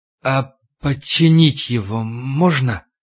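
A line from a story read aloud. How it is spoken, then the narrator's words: Trembling question. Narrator (Russian): Егоров дрожащим голосом спросил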